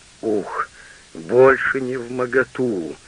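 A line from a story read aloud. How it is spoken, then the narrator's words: Groaning, faint. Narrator (Russian): простонал тайный советник, у которого потемнело в глазах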